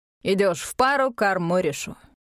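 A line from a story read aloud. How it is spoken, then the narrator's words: Snorting. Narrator (Russian): Тибриус фыркнул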